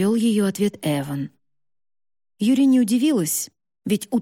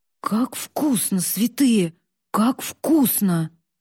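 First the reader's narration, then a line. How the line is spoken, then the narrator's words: Muttering. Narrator (Russian): бормотал он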